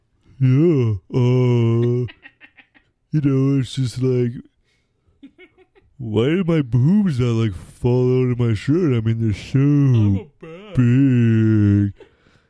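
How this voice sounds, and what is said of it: Imitated voice of Rogue. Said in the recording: “Do your rogue voice.”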